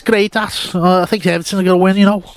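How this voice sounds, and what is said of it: Put-on Scouse accent. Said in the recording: “your accents are really horrendous normally, but that was something special ... speak Scouse? Like, always have that accent.”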